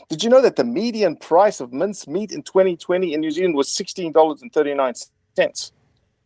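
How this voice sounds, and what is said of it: South African accent. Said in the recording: “people will pick up on that accent ... you have been from South Africa”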